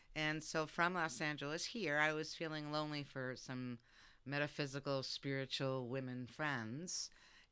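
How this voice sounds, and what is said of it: New York Brooklyn accent. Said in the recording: “my accent's from New York City, yeah. Brooklyn”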